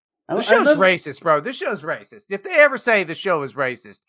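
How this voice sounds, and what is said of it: Usual voice. Nothing is said of it.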